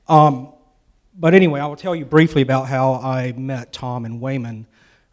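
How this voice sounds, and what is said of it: Southern US accent. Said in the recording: “I'm from South Carolina, which you probably will be able to tell from my accent.”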